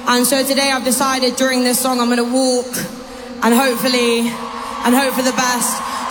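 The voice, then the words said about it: Noticeable accent. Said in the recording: “I love her accent”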